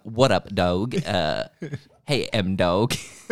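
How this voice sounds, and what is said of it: Put-on cool guy voice. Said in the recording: “put on my cool voice.”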